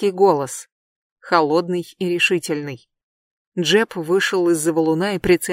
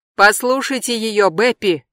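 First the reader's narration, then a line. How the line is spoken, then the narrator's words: Shouted. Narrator (Russian): крикнул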